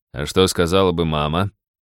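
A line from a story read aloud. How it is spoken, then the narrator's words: Mock-scary deep bass. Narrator (Russian): страшным басом процитировала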